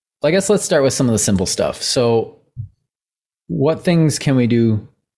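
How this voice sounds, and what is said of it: Strained, fading voice. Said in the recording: “excuse me, I'm losing my voice still”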